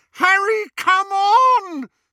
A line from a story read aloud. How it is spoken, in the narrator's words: screamed Hermione